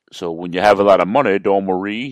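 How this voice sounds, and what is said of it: Imitates another person's voice. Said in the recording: “my Kamala imitation”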